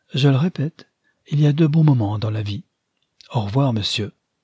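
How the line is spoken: Cheerful. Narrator (French): dit-elle gaiement

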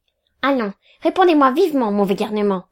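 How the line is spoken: Stern. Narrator (French): dit mon tuteur d'un ton sévère

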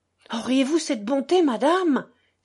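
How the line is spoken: Earnest exclamation. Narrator (French): s'écria d'un ton pénétré

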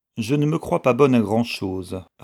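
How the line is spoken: Cold. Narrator (French): répondit Vixen froidement

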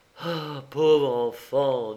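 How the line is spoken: Sad. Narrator (French): dit tristement le banquier

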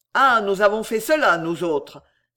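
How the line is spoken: Poet, furious exclamation. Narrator (French): s'écria rageusement le poète

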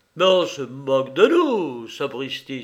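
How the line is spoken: Exclaiming. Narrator (French): s'écria Dukovski

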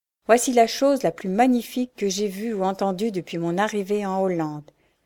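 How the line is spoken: Enthusiastic exclamation. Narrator (French): s'écria Ben avec enthousiasme

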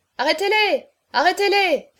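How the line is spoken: Shouted. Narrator (French): cria Chaverny

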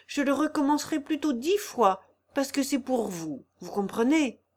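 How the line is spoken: Stammering. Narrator (French): Elle avait rougi légèrement en balbutiant la fin de la phrase

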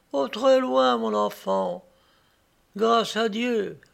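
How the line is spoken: Poor lady moaning. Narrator (French): gémissait la pauvre dame

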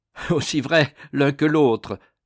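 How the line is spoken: Laughing reply. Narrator (French): répondit en riant Bois Dauphin

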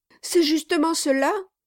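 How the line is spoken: Old man's exclamation. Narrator (French): s'écria le vieillard

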